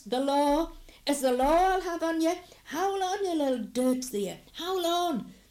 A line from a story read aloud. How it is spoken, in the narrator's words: Willie John shouts